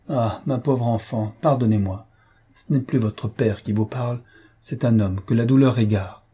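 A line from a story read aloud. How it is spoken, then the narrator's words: Faltering weakening voice, sighing. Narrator (French): Souvent le marquis s'arrêtait lui-même, sa voix s'affaiblissait tout à coup, poussant un soupir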